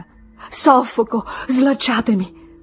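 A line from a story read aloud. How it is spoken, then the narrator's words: Sobbing. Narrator (Italian): singhiozzava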